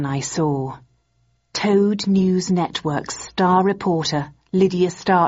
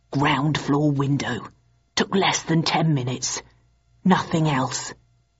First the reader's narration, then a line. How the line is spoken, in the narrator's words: He whispered in my ear